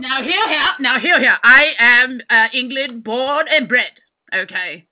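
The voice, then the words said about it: Over-the-top English accent. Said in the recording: “your accent was a little bit too over the top”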